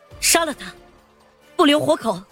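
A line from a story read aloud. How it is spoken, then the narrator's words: Shouting middle-aged woman. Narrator (Chinese): 黑色夹克的中年女子 在废旧的小轿车后面喊道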